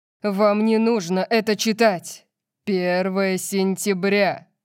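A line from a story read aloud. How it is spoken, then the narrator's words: Loud. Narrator (Russian): громко сказал Орион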